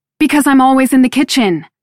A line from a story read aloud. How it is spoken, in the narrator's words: I blurt up at him